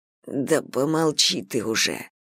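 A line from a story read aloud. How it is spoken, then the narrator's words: Quiet reply. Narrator (Russian): тихо отвечаю я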